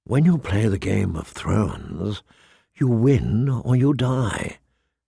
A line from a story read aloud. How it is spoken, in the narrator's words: whispered